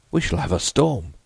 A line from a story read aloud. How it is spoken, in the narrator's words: Hyatt exclaimed